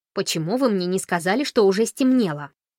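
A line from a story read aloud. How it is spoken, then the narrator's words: Fairly angry accusation. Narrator (Russian): обвинил довольно сердито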